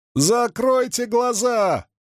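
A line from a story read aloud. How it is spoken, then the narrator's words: Shout. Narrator (Russian): крикнула она мужчинам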